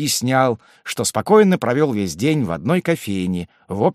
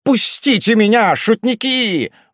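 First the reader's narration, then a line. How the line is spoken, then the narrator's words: Sudden straining shout. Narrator (Russian): вдруг закричал он, напрягая все силы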